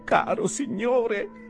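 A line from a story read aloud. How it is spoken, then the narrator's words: Little man pleading. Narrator (Italian): supplicò l'ometto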